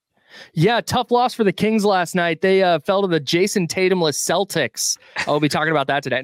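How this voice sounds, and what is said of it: Polished radio announcer voice. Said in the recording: “Listen to that radio voice”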